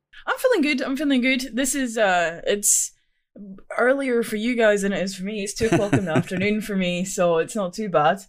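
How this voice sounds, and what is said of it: Scottish accent. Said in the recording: “Love the accent. Scotland.”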